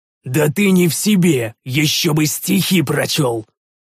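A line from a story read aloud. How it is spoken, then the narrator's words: Growled. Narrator (Russian): прорычал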